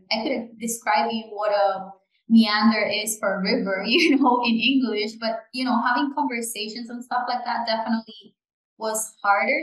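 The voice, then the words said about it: Non-native English accent. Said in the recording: “I still have my accent that I'm very proud of, you know, but I had a very thick accent”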